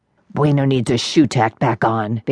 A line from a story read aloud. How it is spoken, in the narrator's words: Big Sky grumbled